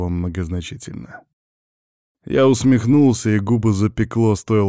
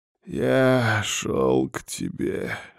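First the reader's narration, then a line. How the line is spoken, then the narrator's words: Forced out hoarsely. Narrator (Russian): выдавил хрипло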